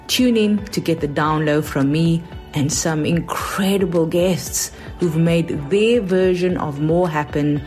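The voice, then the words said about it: South African accent. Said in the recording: “my accent ... it is South African”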